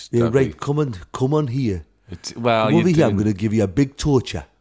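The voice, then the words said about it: Angry put-on Geordie accent. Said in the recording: “a Geordie devil would be ... An angry Geordie”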